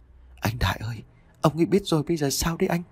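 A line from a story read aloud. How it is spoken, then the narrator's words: Whisper. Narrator (Vietnamese): Tuyết thì thầm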